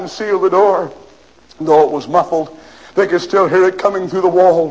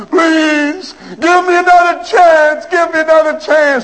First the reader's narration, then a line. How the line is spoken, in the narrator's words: he cried